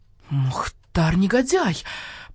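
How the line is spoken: Hissing. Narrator (Russian): прошипел барсукот

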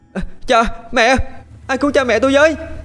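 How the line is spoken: Desperate scream. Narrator (Vietnamese): Tiếng hét của cậu vang khắp mặt sông

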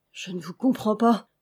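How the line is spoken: Stammering. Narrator (French): balbutia Alix, qui devint pâle et chancela

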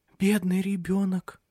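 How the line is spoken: Whispered. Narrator (Russian): прошептала

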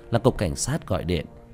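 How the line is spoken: Soft whisper. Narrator (Vietnamese): Tiểu Thất khẽ thì thầm

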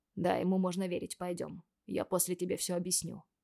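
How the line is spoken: Quiet. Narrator (Russian): тихо сказал

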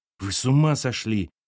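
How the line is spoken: Soft cry. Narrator (Russian): тихонько вскрикнула Аллочка

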